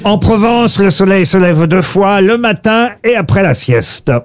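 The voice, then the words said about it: Slight put-on southern French accent. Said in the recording (French): “Vous avez utilisé un petit accent ... ça parle du midi en Provence”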